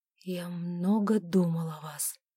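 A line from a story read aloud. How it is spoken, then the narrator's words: Husky with desire. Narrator (Russian): добавил герцог хриплым от вожделения голосом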